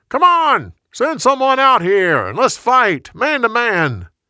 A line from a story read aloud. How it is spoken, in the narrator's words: Suddenly, Goliath shouted his challenge